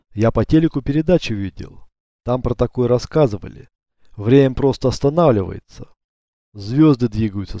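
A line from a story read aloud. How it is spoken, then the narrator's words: Calm remark. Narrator (Russian): спокойно заметил Бурят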